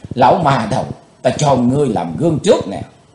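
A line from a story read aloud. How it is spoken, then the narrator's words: Hissing with hatred. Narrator (Vietnamese): Chàng rít lên giọng căm hờn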